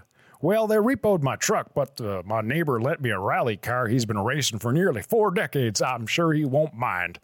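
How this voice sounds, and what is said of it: Odd rural Albertan-style character accent. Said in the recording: “I don't know what fucking accent that is. I'm so sorry to everyone in Alberta.”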